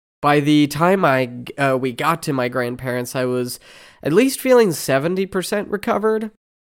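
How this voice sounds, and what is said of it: Congested, stuffy-nosed voice. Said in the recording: “my voice is still a little bit congested now”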